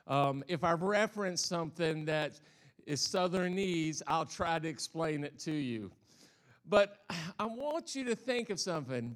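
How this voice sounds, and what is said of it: Southern American accent. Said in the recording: “I'm a Southern boy. I come from the South, so if I have this funny accent”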